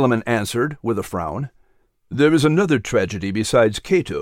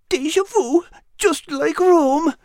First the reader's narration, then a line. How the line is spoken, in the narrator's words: he whined in a muffled voice